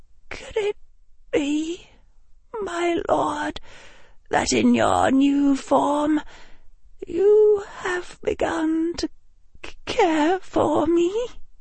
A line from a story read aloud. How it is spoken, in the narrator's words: in a quavering voice